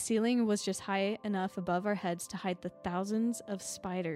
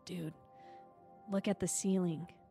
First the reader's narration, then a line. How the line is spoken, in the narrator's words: whispers